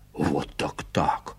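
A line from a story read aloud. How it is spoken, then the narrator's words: Whispered protest, old man. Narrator (Russian): шепотом сопротивляется старик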